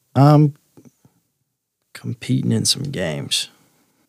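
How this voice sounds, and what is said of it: Speaks more quietly. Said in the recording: “lower my voice a little bit”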